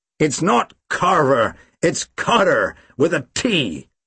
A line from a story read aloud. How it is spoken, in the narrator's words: the American growled